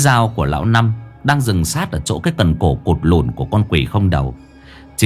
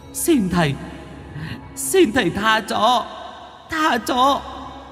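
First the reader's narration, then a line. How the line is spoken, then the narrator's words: Whimpering, pleading. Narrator (Vietnamese): hai con ma da ở đằng sau mếu máo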